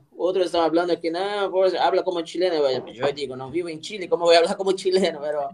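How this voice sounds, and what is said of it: Unusual mixed Spanish-Portuguese accent. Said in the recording (Spanish): “tiene, acento, ¿ah? ¿Tiene acento chileno? ... una mezcla de un, un portuñol ... Claro, tiene un acento raro.”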